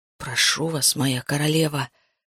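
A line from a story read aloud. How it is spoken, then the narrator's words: Muffled whisper. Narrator (Russian): прошептал, уткнувшись лбом в холодные камни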